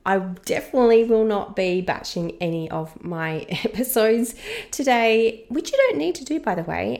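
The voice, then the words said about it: Sick, under-the-weather voice. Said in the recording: “As you can probably hear from my voice, I am a little bit under the weather this week ... hopefully this will be the only episode that I sound like this”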